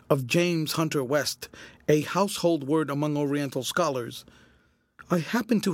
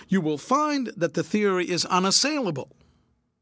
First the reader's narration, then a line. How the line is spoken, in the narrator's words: cried my father